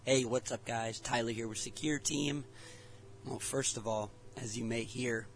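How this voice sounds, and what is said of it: Fading, hoarse voice. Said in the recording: “my voice is going out. Now, I don't know if I'm getting sick because I don't feel sick. However, my voice is going out”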